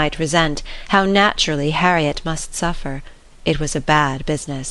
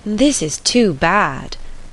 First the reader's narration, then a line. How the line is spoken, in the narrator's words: cried Emma